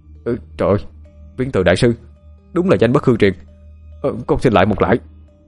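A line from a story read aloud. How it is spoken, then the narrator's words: Stammering. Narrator (Vietnamese): Thông lắp bắp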